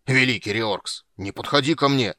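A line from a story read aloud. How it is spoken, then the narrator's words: Roaring dwarf. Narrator (Russian): взревел гном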